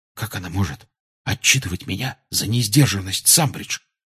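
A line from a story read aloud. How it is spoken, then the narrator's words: Whisper. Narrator (Russian): шепнул Гарри Рону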